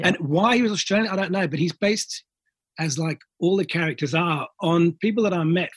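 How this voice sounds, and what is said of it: Put-on Australian accent. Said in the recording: “How am I doing with the accent, by the way? ... You're doing okay.”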